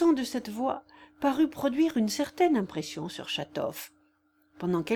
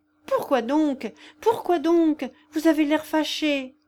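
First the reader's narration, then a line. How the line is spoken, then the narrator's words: Distressed, pleading tone. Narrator (French): fit Lisa d'un ton affligé et suppliant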